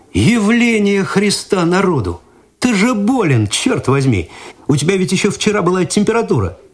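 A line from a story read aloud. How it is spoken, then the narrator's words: Exclaiming. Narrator (Russian): Игорь изумленно воскликнул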